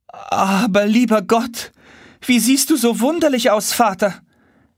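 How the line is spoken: Sudden call, princess. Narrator (German): rief auf einmal die Prinzessin Amarza

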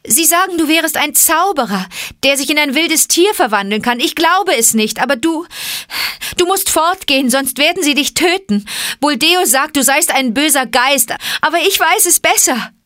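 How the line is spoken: Calling out. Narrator (German): rief sie

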